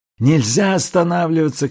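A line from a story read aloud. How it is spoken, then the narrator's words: Shouting. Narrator (Russian): кричал Селенг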